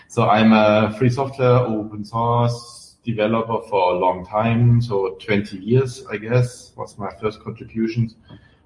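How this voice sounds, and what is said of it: German accent. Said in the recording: “I'm German, as you can hear from my accent”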